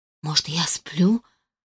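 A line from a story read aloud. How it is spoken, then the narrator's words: Barely audible mutter. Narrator (Russian): пробормотала едва слышно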